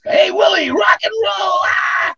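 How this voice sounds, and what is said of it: Yelling cartoon character voice. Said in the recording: “I did his cartoon voice... that was the hardest voice I ever did because he yelled all the time... he yelled all the time”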